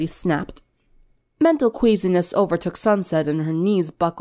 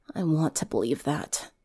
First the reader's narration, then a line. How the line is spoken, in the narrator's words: she whispered